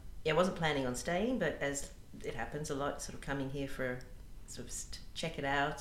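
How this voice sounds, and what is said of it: Australian accent. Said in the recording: “as everyone can probably tell by my accent here, I'm an Australian”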